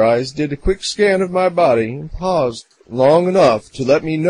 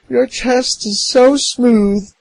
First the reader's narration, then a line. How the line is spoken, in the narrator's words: said with a squealy giggle